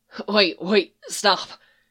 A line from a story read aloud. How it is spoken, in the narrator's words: gasped